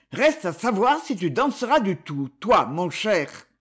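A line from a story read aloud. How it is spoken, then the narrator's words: Muttered through teeth. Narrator (French): murmura-t-il entre ses dents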